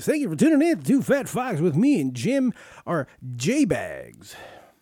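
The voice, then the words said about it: Announcer-style radio voice. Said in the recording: “This is my radio voice.”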